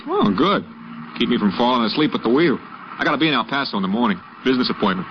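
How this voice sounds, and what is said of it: New York accent. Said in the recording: “New York. Guess the accent sticks out”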